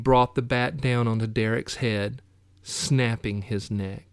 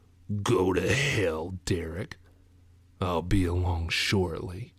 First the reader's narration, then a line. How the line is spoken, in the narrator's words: Matt, in that deep voice he did not recognize, he said